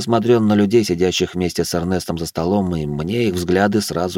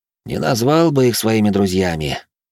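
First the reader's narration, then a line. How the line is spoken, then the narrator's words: Young man's heavy sigh. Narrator (Russian): молодой маг тяжело вздохнул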